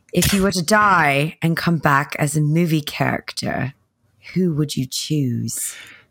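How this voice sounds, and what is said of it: Not-great put-on British accent. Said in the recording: “I don't have a great British accent, but I'm going with it.”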